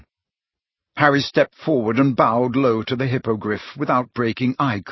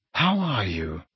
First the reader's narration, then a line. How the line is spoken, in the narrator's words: Harry asked him in a low voice